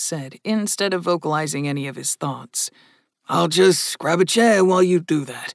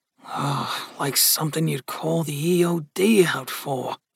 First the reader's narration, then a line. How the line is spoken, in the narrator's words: muttered Gus